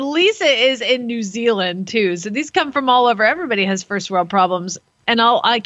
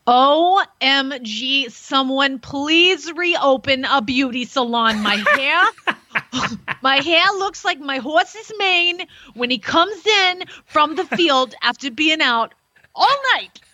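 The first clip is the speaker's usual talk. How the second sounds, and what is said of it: Put-on New Jersey accent. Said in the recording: “I'm going to read it in her not-so-Brooklyn accent. ... that's a Jersey girl speaking right there.”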